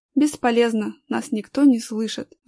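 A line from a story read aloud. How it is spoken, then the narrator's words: Sighing. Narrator (Russian): вздохнул Данил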